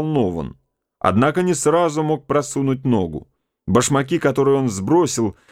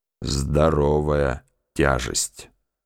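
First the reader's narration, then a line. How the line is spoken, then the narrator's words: Muttered. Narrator (Russian): пробормотал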